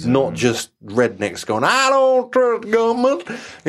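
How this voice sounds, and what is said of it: Poor put-on American accent. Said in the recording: “that was a really bad American impression”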